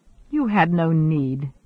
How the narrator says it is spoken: said Guest in his mildest tone

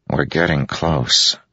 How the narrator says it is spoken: Moash said softly

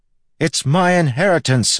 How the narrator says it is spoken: I yelled back

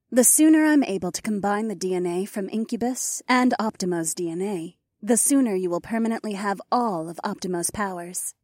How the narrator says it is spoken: Eileen said

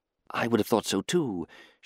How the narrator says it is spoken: she whispered into the gloom

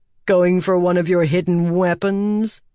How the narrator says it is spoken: He asked with a sneer

